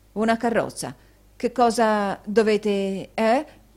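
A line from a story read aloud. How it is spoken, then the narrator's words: Stammering. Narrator (Italian): balbettò Newman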